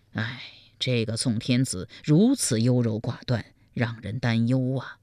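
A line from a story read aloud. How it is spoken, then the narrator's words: Private sigh. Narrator (Chinese): 赵普暗自叹道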